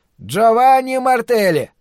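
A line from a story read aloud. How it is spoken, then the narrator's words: Loud repetition. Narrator (Russian): громко повторяет Тронг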